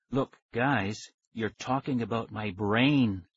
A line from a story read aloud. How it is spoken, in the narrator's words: I said softly